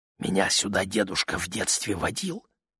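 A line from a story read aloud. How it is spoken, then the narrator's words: Whispered. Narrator (Russian): прошептал Мэтью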